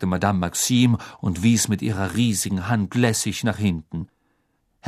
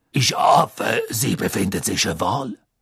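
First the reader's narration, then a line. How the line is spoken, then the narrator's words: Deep voice. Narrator (German): sagte Madame Maxime mit tiefer Stimme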